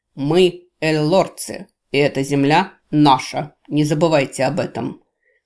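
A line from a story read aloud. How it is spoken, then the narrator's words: Solemn proclamation. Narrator (Russian): торжественно провозгласил Таул Ирсин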